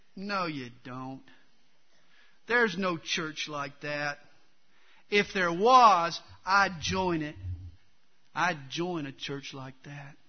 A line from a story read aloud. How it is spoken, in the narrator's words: a skeptical Harry sort of sneered back